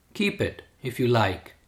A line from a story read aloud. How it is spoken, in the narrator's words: With a heart full of compassion, Bhagavan said in a soft tone